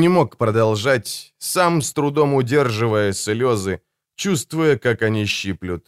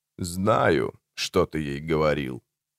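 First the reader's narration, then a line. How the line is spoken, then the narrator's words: Sad, sympathetic. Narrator (Russian): печально и сочувственно сказал Барри Лейтон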